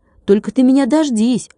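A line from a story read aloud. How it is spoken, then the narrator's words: Shout. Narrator (Russian): крикнул он малютке-барабанщику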